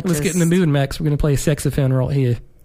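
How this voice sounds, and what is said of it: Poor put-on Australian accent. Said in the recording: “That was an awful attempt at an Australian accent.”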